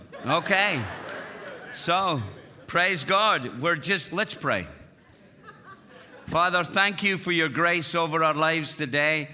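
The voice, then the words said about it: Scottish accent. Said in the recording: “We bring you greetings from Scotland. You're going to love the accent ... there's only two people in the world got an accent like this. It's Mel Gibson and me.”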